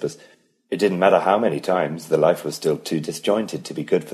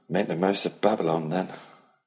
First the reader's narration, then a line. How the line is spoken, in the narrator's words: Ellie said dryly